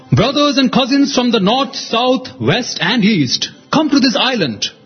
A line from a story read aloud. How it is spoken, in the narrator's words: Whale called out